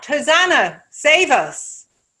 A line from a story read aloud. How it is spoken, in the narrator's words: They saw a potential victor, so they shout